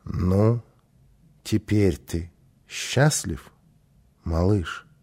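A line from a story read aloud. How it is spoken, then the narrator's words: Plain. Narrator (Russian): спросил папа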